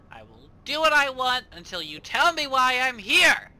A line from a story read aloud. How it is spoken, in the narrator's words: He just keeps screaming at them